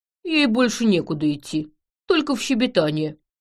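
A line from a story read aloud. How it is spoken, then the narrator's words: Grumbling. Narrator (Russian): проворчал Ядыш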